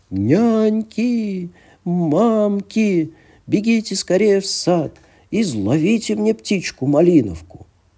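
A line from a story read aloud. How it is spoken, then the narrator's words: Loud shout. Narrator (Russian): закричала Елена Премудрая громким голосом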